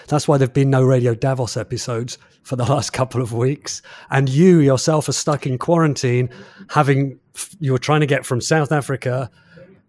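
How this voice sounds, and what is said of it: Slightly hoarse voice. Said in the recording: “My voice still sounds a little bit hoarse, I lost my voice completely for a week.”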